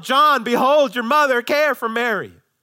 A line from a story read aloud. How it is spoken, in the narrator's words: And he really yelled